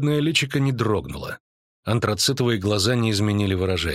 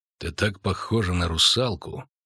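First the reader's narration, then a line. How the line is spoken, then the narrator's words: Calm witcher. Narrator (Russian): спокойно продолжал ведьмак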